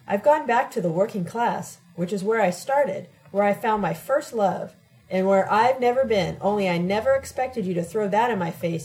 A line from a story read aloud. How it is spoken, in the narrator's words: he exclaimed